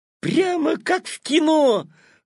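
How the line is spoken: Delighted exclamation. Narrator (Russian): восторженно воскликнул Петя

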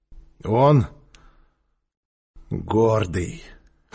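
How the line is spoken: Hoarse repetition. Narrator (Russian): хрипло повторил Квакин

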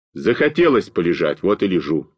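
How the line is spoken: Plain. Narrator (Russian): сказал я

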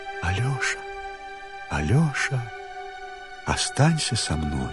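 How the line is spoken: Quiet hen's voice. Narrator (Russian): что она тихонько ему говорит

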